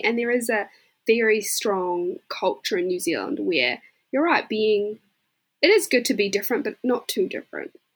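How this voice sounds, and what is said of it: New Zealand accent. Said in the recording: “I've got a Kiwi accent”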